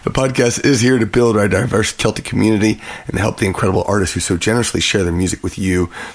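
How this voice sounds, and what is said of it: Hoarse, husky voice. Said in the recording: “my voice is still hoarse from St. Patrick's Day ... a little bit more sexy voice”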